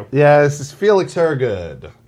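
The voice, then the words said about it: Radio announcer style voice. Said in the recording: “That was a little bit of an announcer voice.”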